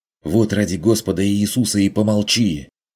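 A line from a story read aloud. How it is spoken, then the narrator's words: Angry hiss. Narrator (Russian): прошипел Карл Штефан разозленно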